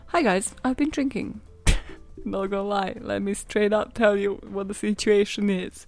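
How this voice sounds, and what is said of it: Sultry, breathy tipsy voice. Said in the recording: “why do I sound like a porn actress?”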